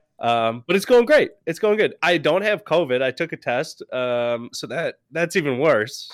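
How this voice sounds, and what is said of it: Congested, sick-sounding voice. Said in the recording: “Definitely got sick throughout the day. I'm still, like, you can hear it in my voice. ... Very congested still.”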